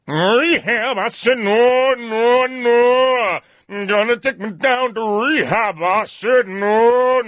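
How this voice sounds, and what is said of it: Singing imitation of a famous singer. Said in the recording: “That's a good impression, isn't it? ... your impression of Amy Winehouse”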